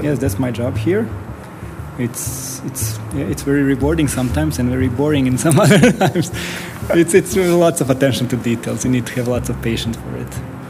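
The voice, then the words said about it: Bosnian-accented English. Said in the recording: “that accent sounds... I'm from former Yugoslavia, in Bosnia, Sarajevo.”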